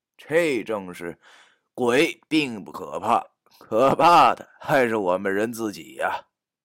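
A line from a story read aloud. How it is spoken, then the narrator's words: Amused inner musing. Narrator (Chinese): 我不由得感到好笑，心中感叹道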